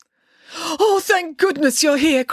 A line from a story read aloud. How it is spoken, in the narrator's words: cried Dad